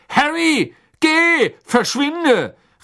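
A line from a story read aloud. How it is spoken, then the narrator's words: Called out. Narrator (German): rief Mr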